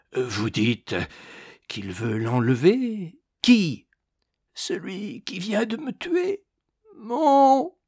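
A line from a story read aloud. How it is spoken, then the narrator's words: Hoarse with anguish. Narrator (French): fit Ragastens d'une voix rauque d'angoisse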